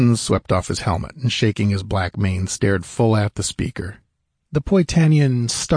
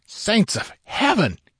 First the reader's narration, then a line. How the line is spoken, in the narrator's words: gasped